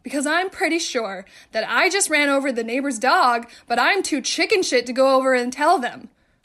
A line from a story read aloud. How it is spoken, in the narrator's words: started yelling